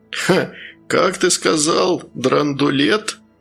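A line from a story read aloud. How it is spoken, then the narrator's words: Laughing. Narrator (Russian): незнакомец рассмеялся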